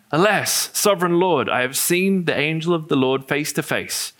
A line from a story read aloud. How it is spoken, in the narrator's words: Gideon realized that it was the angel of the Lord, he exclaimed